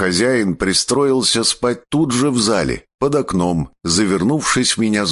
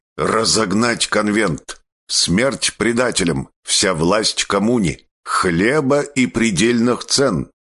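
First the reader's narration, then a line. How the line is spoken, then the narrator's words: Crowd growling. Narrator (Russian): Они рычали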